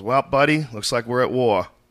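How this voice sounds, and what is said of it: Boston accent. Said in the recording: “That Boston accent”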